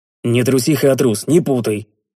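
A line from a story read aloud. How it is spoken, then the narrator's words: Smirking. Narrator (Russian): хмыкнул я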